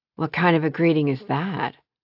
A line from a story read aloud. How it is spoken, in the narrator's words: Bennett sighed